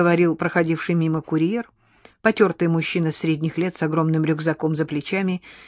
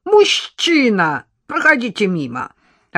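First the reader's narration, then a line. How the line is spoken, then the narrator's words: Snapping market vendor. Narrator (Russian): огрызнулась торговка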